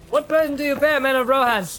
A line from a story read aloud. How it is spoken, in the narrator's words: he cried